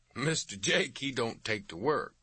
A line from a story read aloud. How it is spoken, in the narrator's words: Dietz said with a chuckle